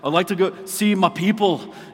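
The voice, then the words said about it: Bad put-on Scottish accent. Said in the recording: “This is my best Scottish accent. ... it's a terrible accent”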